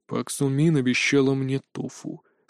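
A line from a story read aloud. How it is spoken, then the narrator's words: Calm reply. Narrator (Russian): спокойно ответил Мунджин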